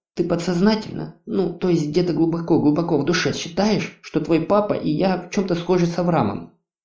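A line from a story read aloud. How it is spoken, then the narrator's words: Whisper. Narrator (Russian): Прошептал Юл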